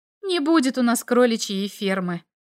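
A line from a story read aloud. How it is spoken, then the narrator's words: Sigh. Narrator (Russian): вздохнула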